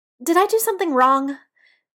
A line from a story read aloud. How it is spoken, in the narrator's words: Biddy blurts